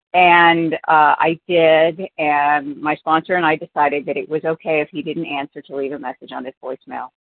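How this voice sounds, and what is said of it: Hoarse, failing voice. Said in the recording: “as you can tell, I'm losing my voice. I'm getting sick.”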